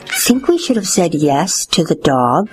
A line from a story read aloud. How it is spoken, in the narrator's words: whispered Father to Mother